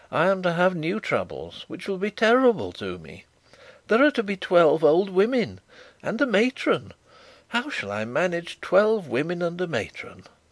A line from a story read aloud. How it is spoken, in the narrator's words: said he, half laughing